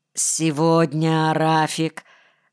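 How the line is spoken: Tired, indifferent. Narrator (Russian): сказал я устало и безразлично

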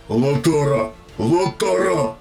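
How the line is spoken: Growl. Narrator (Russian): рыкнул Центурион

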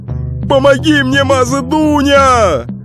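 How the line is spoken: Shouting. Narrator (Russian): закричал Акши Иван

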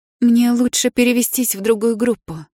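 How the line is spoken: Less strained, calmer voice. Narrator (Russian): сообщила я уже не таким надрывным голосом

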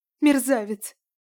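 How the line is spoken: Sobbing, woman. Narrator (Russian): всхлипнула варянка

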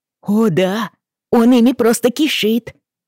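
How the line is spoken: Joyful. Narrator (Russian): радостно подтвердил Джейми

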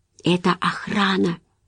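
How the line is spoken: Whisper. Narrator (Russian): прошептала Джулия

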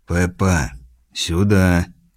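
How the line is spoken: Very quiet suggestion. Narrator (Russian): Очень тихо Сэм предложил

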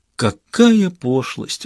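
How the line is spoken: Sudden sigh. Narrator (Russian): вдруг вздохнул Дерец

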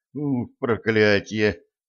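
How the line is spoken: Groan. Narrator (Russian): простонал Юнга

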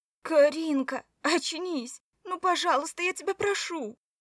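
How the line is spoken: Sobbing close by. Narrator (Russian): Рыдал кто-то над ухом

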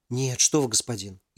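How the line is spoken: Frightened young man answering. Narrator (Russian): испуганно ответил юноша

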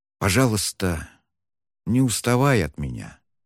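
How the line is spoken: Sudden whisper. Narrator (Russian): внезапно прошептал он

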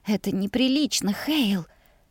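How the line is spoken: Hoarse whisper. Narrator (Russian): шепнула хрипло

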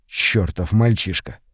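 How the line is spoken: Muttered under breath. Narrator (Russian): Буркнул Сет себе под нос

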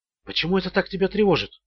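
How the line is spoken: Quiet question. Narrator (Russian): тихо спросила Джоди

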